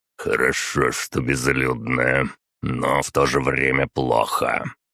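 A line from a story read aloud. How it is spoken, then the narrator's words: Deep bass voice. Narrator (Russian): Генерал пробасил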